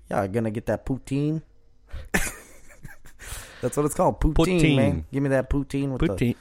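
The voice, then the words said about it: Put-on exaggerated Canadian-sounding accent. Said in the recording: “So this accent is because I've been watching and listening to a crap load of Theo Vaughn. ... But you're like, doing really Canadian.”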